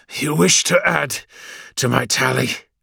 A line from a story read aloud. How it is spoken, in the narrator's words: breathed the renegade, his voice ragged and edgy